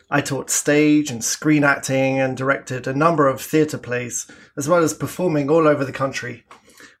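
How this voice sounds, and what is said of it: Southern English accent. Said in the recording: “As you can probably tell from my accent, I'm originally from the south of England.”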